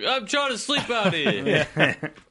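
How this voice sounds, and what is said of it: Put-on New York accent. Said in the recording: “That's your New York accent... Your homeless New York accent.”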